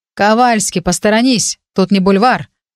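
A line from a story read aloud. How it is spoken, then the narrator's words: Growled. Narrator (Russian): рыкнул на подругу Джесс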